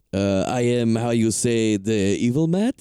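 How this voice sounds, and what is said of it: Put-on foreign accent. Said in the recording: “An accent.”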